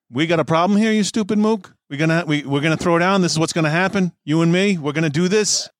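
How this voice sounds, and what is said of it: Hard Brooklyn accent. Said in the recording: “A hard Brooklyn accent”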